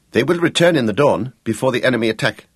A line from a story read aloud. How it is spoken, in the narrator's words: Gregorius defended them quickly